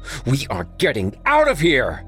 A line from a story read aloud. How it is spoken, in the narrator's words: Chadwick shouted